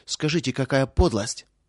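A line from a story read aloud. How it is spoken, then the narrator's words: Angry. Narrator (Russian): проговорила сердито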